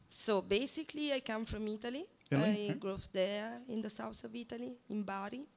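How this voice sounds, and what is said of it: Italian accent. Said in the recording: “In case you can't tell by your accent, she's not from around here.”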